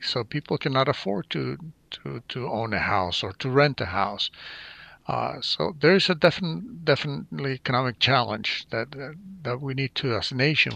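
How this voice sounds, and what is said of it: South American accent. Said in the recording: “as you can tell from my accent, I'm from South America.”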